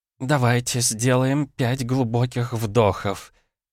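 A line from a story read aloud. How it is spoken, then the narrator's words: Trembling voice. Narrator (Russian): говорит она дрожащим голосом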